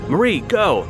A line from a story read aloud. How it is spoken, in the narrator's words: his father shouted